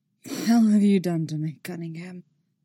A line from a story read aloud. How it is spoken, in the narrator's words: he rasps, husky voice